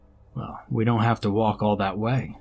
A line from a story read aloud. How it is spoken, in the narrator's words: I said